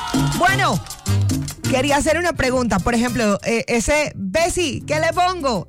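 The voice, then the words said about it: Colombian coastal (costeño) accent. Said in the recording (Spanish): “yo tengo mi acentico ahí costeñito”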